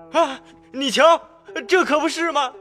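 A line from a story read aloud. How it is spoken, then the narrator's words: Crowd shouting together. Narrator (Chinese): 大家一起嚷起来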